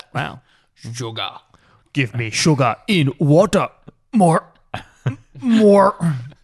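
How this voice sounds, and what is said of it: Impression of Vincent D'Onofrio. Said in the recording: “I've been workshopping that for about 14 years. ... My impersonations from D'Onofrio.”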